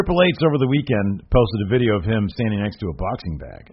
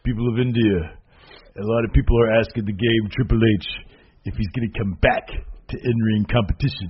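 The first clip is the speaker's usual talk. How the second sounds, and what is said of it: Poor imitation of another person's voice. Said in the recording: “Not a very good Triple H. ... I'm not doing a good Triple H right now. ... Your impression game is a little bit off today.”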